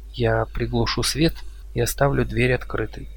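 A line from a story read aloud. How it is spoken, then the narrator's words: Quiet. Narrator (Russian): тихо сказала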